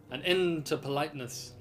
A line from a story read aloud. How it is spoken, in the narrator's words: thundered